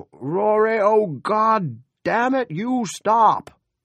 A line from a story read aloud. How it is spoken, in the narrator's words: his father bawling